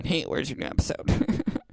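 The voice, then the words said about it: Put-on silly character voice. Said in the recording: “That's not what you guys sound like, by the way. That's just me doing a voice.”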